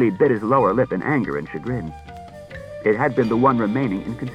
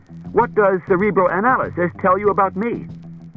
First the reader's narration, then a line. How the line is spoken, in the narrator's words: said Bailey sharply